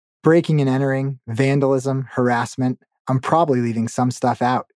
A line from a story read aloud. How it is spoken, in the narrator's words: he said